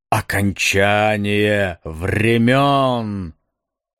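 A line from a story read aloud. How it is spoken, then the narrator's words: Muffled sound from horn. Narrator (Russian): Глухо вырвалось из раструба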